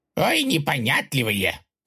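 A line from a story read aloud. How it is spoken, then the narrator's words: Chief grumbling. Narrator (Russian): проворчал вождь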